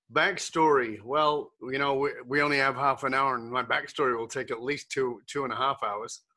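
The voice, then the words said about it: Muddled mixed British-based accent. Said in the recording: “this muddled accent ... I was born in the UK ... ended up living in Australia ... moved to Canada”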